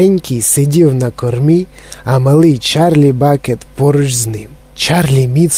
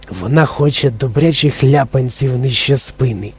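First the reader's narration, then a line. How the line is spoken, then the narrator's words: Old man whispering. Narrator (Ukrainian): прошепотів на вухо Чарлі дідунь Джо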